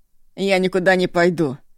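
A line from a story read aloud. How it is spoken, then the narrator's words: Through gritted teeth. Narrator (Russian): сквозь зубы бросил Ишу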